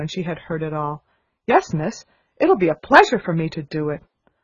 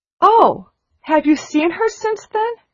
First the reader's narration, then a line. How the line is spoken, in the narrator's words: exclaimed Sarah